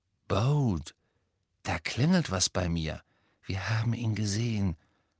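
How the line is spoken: Whisper. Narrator (German): flüsterte Hermine

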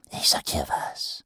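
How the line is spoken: Whispering. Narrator (German): flüsterte Ruin

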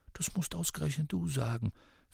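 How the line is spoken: Whispering. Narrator (German): flüsterte er zurück

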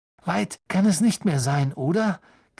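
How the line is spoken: Croaking. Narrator (German): krächzte Ron

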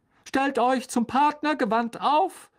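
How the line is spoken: Called out. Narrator (German): rief Lockhart inzwischen wieder auf der Bühne

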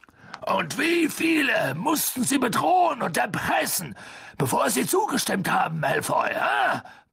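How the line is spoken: Angry bluster. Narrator (German): polterte er los

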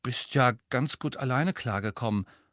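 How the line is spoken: Mumbled. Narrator (German): nuschelte Ron

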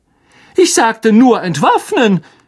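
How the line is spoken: Angry shout over crowd. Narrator (German): rief Lockhart aufgebracht über die Köpfe der kämpfenden Menge hinweg

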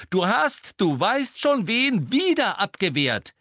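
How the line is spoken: Almost shouting. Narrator (German): sagte Ron und schrie jetzt fast

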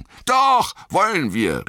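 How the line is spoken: Called out. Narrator (German): rief Pippin

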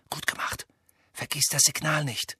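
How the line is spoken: Whispered. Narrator (German): flüsterte Hermine

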